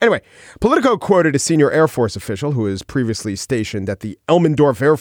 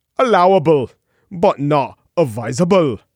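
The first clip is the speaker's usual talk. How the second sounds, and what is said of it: Put-on Scottish accent, Aberdeen-like. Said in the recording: “That's more of an Aberdeen accent. I was going for Glasgow.”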